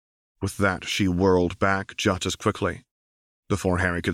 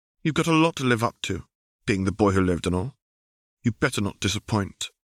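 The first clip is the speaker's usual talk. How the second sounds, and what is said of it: Posh received pronunciation accent, slightly bitter. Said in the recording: “she said in a posh, received pronunciation accent. Though Harry did detect a note of bitterness in her voice”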